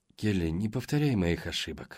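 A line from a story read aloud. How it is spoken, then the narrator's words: Sighing mother. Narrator (Russian): вздохнула мать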